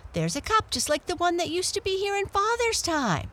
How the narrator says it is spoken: exclaimed Felix

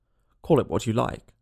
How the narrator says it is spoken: said the cat

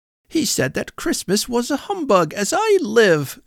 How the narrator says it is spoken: cried Scrooge's nephew

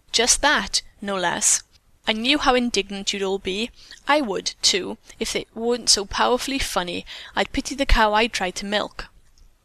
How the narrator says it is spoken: Mary laughed as she replied

